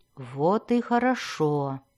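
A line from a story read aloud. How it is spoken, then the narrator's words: Purring. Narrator (Russian): промурлыкала Синафай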